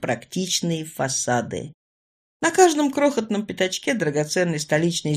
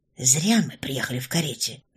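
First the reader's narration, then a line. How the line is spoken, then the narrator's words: Whispered into ear. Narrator (Russian): наклонившись к уху спутницы, шепнула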